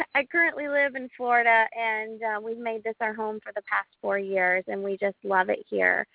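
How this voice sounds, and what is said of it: Appalachian North Carolina mountain accent. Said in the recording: “I'm from North Carolina. I'm from Asheville. I'm a mountain girl, hence the accent.”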